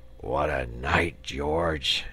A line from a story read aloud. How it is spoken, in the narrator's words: he murmured